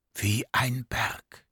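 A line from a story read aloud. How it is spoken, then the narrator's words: Whispering creature. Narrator (German): flüsterte der Themart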